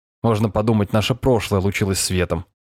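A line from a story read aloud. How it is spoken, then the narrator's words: Snorting. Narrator (Russian): фыркнул Алексей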